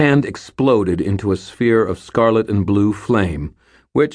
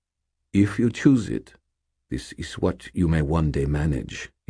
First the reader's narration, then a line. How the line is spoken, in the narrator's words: said calmly